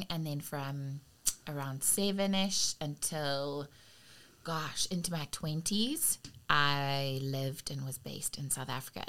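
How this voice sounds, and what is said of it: South African accent. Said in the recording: “This accent is not going anywhere. So that is where the accent's from.”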